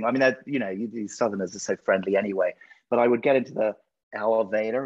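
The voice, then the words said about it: British English accent. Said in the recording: “your accent is so cool to me ... all the Netflix shows that are from the UK ... us Americans, can't get enough of your accent”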